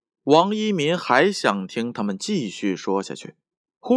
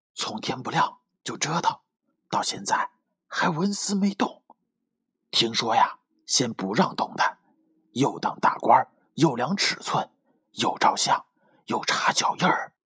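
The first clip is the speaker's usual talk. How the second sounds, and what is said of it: Quiet muttering voice. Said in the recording (Chinese): “小声嘀咕着”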